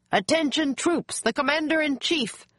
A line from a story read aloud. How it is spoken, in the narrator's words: a soldier shouted